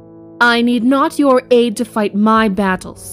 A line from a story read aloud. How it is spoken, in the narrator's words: she says curtly